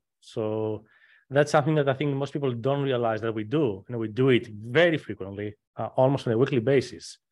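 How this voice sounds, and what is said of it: Texan accent with slight Greek tinge. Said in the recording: “your Texan accent has a slight Greekness to it”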